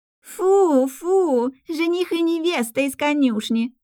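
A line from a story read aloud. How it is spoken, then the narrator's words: Teasing shout while running. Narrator (Russian): закричала рыжая Герика, пробегая мимо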